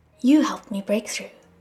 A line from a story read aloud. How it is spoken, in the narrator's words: Shilin replied